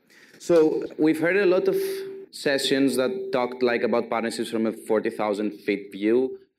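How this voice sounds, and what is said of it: Strong Greek accent. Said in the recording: “you have to put up with my Greek accent. I now have a strong Greek accent”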